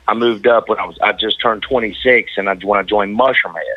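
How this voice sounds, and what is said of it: Thick Southern drawl. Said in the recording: “the thick Southern drawl ... I'm originally from North Carolina”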